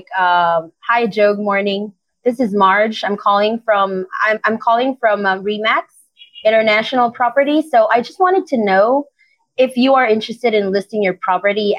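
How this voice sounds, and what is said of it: Neutral American call-center accent. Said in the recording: “you needed to sound like you're a Native American from the company ... Yung neutral American accent”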